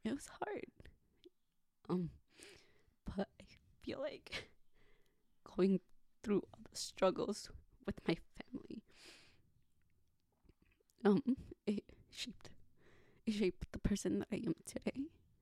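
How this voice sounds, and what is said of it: Emotional, voice breaking. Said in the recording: “I get a little emotional.”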